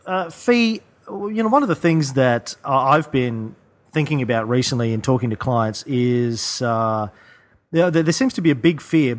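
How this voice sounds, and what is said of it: Thick Australian accent. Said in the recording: “my thick Aussie brogue”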